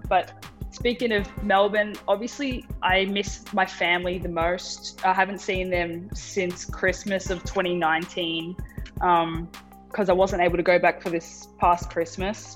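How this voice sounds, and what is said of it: Australian accent. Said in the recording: “being around Aussies, talking to Aussies makes me feel at home. I feel like it makes my accent come out more. even talking to you”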